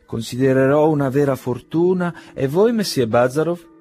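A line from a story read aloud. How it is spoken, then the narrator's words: Exclaiming. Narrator (Italian): esclamò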